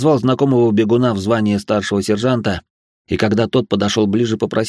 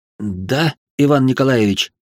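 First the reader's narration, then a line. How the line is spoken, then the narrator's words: Frightened. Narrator (Russian): испуганно сказал он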